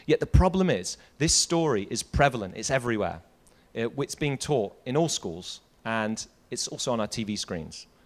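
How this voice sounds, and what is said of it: British accent. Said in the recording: “You can probably tell from my accent, from the UK”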